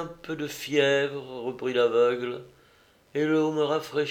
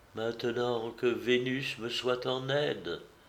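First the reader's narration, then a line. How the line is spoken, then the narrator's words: Soft woman's voice. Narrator (French): dit-elle doucement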